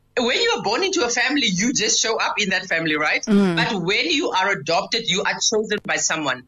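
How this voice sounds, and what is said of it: Deep voice with an accent. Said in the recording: “you've got such a deep voice. ... People talk about my accent.”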